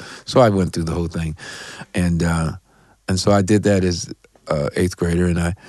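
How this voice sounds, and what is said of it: Usual voice. Nothing is said of it.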